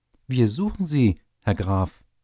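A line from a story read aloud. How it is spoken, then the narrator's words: Official calling out. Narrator (German): rief der Amtsrat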